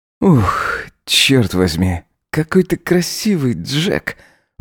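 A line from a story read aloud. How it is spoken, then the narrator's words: Breathed into ear. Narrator (Russian): выдохнул он ему на ухо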